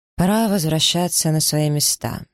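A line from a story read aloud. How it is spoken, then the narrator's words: Dry statement. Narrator (Russian): сухо заявил мистер Броудоутер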